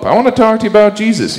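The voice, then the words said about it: Imitates another person's voice. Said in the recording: “that was a good impression of the Pope”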